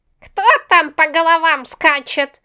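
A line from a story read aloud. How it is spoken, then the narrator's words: Indignant old woman yelling. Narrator (Russian): орала одна возмущенная старушка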